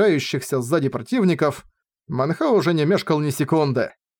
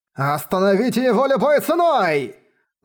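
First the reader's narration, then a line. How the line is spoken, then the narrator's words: Shout. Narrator (Russian): закричал Гун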